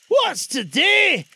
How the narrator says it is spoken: cried Scrooge, calling down

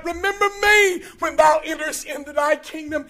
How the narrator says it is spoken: He cries out

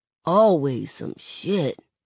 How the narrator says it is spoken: he mumbles

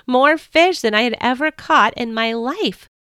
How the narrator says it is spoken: I cried

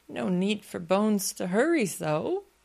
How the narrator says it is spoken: I sobbed

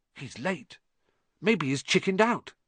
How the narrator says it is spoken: Ron whispered

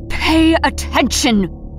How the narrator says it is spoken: Airless spat

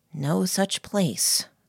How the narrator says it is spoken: murmured

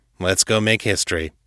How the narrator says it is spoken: said dryly

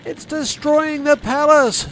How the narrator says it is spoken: screamed the sec-gen over the roaring flames

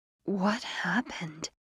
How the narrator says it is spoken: moaned

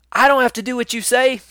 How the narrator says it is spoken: A kid yells

